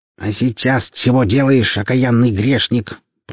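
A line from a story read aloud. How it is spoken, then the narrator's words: Creaky, impatient old voice. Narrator (Russian): проскрипел пастор, устав ждать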